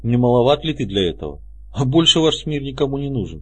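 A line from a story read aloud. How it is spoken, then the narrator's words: Sad, smiling. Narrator (Russian): грустно улыбнулся он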